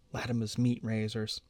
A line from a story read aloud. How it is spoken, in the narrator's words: she whispers in answer to his arched eyebrows